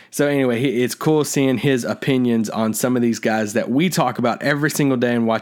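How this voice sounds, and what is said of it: Kentucky accent. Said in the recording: “my accent, see why that we're from Kentucky”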